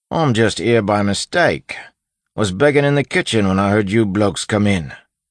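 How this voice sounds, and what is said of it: Put-on character accent. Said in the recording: “He'd turned up his Ruff's accent.”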